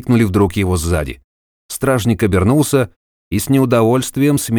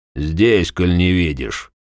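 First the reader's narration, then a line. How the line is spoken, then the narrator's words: Grumbled. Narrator (Russian): пробурчал Класс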